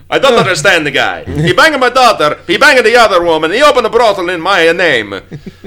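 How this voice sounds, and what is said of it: Put-on Italian accent. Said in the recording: “it's never racist if you use an Italian accent”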